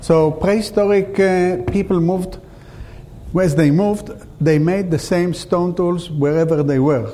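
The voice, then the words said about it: Speaks with a strange accent. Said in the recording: “my strange accent”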